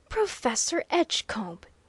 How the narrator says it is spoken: he again exclaimed

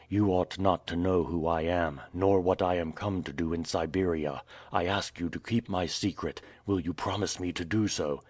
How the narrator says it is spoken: said Michael in a low voice

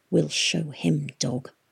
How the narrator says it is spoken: she whispered in her wolf's ear

